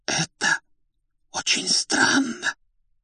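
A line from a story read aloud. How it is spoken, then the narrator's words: Whispered. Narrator (Russian): почему-то шепотом произнесла та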